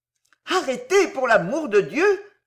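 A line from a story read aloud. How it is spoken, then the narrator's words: Alarmed cry. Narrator (French): s'écria-t-elle en voyant Croas tirer un pistolet de sa ceinture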